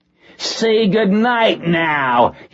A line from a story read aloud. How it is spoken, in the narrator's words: screamed